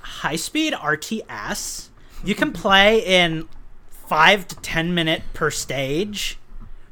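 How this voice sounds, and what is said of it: Valley Girl California accent. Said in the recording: “in a typical Valley Girl California accent”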